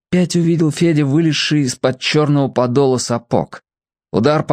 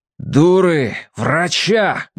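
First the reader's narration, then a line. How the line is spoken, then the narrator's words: Barking shout, man. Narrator (Russian): гаркнул отец Евгений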